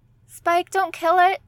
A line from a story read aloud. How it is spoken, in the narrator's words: Dawn pleaded